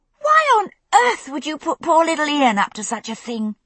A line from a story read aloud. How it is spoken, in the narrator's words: Brianna was saying, her voice high with indignation